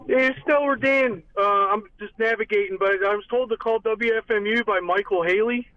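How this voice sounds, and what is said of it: Delaware accent. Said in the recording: “Excuse my accent. It's a Delaware accent”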